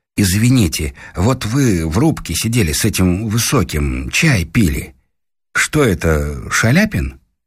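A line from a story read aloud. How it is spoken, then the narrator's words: Timid question. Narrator (Russian): Муж робко спросил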